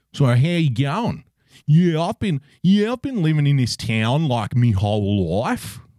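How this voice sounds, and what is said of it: Put-on Queensland Australian accent. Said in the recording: “when you're in Queensland, right, and you really roll your O's and your R's and your I's ... it's a great Queensland accent”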